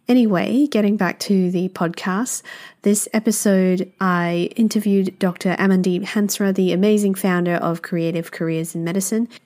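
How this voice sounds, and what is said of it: Slightly altered, unwell-sounding voice. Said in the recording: “my voice sounds a little bit different... just recovered from a very horrible viral ERTI... I had aches and headaches”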